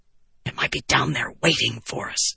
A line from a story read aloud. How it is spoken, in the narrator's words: the prince hissed